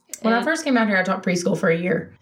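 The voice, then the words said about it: Mississippi accent. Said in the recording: “by your accent ... I am from Clinton, Mississippi”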